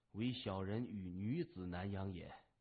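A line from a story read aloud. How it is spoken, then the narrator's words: Low voice. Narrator (Chinese): 他低声说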